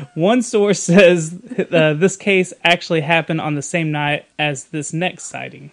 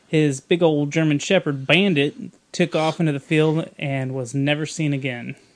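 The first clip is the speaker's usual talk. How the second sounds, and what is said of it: Put-on Texas accent. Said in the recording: “Texas accent came out.”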